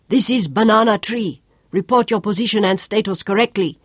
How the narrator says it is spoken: snapped

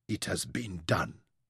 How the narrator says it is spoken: Thea whispered to himself

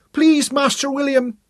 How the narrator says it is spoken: Mary shrieked

